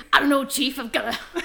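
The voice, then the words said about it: Weak 1930s detective accent. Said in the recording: “I'll feel like a detective from the 30s ... My accent isn't good enough to keep doing that”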